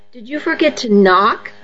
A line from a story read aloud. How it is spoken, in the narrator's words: I asked sarcastically